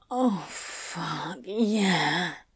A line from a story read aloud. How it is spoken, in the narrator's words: Crowley groaned, his chest heaving